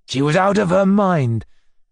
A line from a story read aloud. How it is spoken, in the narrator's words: said the old man sharply